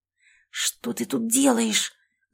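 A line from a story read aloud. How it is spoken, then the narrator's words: Hiss. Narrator (Russian): зашипела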